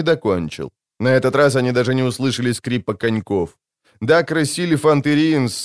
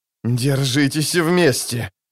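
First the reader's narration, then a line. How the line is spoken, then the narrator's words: Groaning. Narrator (Russian): простонал Скеллен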